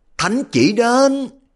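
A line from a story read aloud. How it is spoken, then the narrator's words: Drawn-out proclamation. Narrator (Vietnamese): sứ giả cầm đầu kéo dài cái giọng điệu kêu lên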